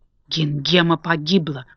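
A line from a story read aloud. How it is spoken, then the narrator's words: Evil witch whispering. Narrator (Russian): прошептала злая волшебница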